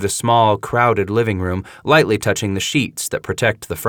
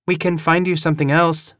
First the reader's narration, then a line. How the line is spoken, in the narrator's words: Kelly says, her voice hesitant